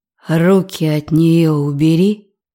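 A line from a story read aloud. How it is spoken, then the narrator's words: Growling. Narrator (Russian): прорычал Зорин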